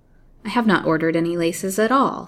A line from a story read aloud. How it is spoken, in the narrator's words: said the lady sharply